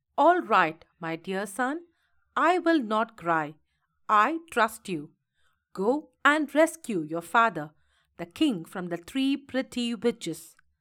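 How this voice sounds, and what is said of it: Stern voice. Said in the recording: “in a stern voice”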